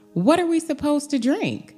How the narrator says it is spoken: Moses cried out to the Lord

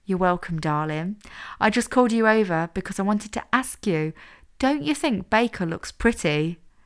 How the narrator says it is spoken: Lily laughed loudly

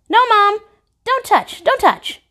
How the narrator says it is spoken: yelp

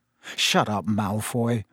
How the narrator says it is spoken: said Harry quietly

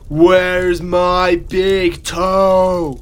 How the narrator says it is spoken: it said in a very loud voice

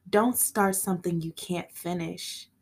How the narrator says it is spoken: Tebby moaned

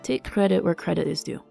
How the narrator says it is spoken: the king said softly

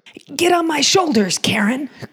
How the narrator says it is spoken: cried Frosty

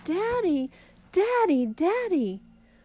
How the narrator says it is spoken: Bunny jumped up and down and cried

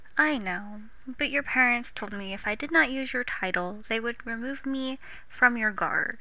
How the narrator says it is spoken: sighs

